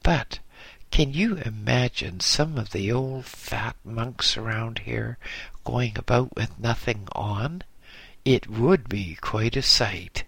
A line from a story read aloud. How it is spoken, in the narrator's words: he laughed as he continued